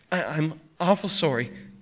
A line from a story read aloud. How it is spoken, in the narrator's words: the kid said anxiously